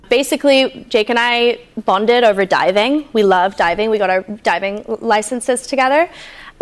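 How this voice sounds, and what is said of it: British speaker with unexpected-sounding accent. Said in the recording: “girl, what's happening with your accent? ... remember, she's British.”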